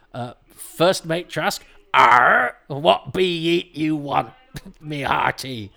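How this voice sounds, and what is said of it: Exaggerated pirate voice. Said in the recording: “Why are you talking like you're not a pirate ... Talk Like a Pirate ... speaking like a pirate ... sound like a drunk member of the cast of the Archers”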